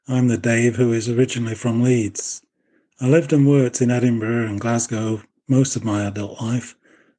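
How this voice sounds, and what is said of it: Yorkshire English accent. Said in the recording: “accent might be more Boycott than baseball”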